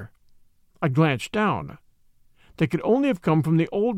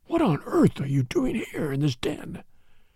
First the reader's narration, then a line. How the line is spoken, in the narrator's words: I whispered